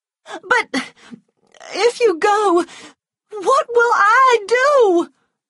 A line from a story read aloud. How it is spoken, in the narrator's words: She cried